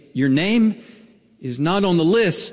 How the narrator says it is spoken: he said

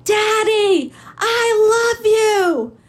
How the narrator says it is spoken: she screams

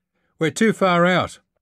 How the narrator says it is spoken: he shouted

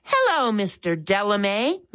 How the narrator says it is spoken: Max said cheerfully

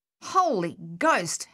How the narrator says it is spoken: Harold exclaimed

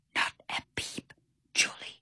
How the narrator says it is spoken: he whispered

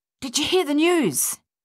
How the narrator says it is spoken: panted heavily

